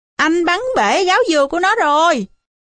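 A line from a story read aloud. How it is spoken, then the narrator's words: Shouting. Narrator (Vietnamese): ác nhơn đứng bên cạnh còn la lên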